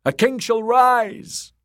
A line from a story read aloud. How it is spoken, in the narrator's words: the drowned men cried